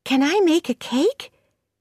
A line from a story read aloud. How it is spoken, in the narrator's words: said Anne excitedly